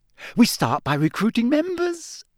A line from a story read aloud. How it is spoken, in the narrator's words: said Hermione happily